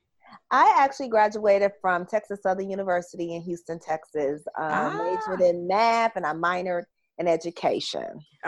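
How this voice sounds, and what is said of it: Slight regional accent. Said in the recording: “I hear a bit of an accent.”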